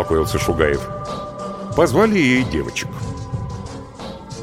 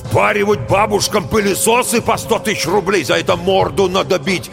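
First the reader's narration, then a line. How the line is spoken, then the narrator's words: Shouting. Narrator (Russian): кричал Герасименко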